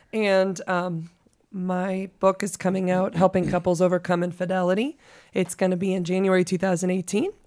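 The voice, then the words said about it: Low, cracking, sultry voice. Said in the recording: “I'm trying to go low. My voice is just cracking like crazy. ... that sultry voice”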